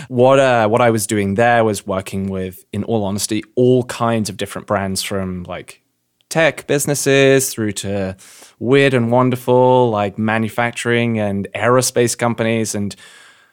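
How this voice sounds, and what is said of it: English accent. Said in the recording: “as you've probably guessed from my accent ... known you were from England”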